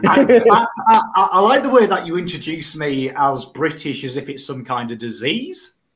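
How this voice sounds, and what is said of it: British accent. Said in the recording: “he's British. So excuse the excuse the accent”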